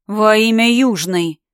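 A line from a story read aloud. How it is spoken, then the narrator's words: Moaned. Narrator (Russian): простонал Биан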